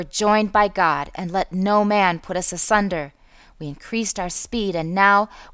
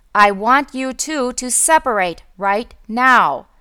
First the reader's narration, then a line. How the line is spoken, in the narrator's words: he said in a loud voice